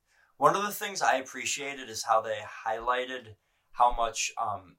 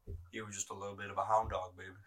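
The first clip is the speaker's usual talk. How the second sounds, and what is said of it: Poor imitation of a singer's voice. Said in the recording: “I have a terrible Elvis accent”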